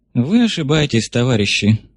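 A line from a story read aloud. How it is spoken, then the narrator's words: Weary sigh, old man. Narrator (Russian): устало вздохнул старый большевик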